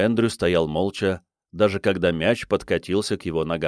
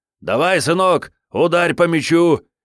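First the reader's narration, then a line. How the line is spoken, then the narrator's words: Shouted. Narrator (Russian): крикнул Брайан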